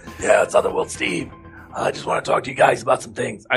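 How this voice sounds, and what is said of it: Gravelly imitation of another person's voice. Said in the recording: “that's my Otherworld Steve impression... Oh, that's pretty good. That's pretty good. You got the gravel down and everything.”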